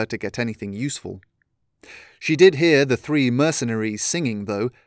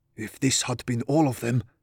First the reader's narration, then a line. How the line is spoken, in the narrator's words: Brachus whispered